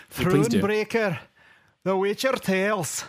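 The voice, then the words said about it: Put-on exotic European, Scottish-sounding accent. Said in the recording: “some kind of exotic European accent ... his Scottish accent's better than mine ... It's very good.”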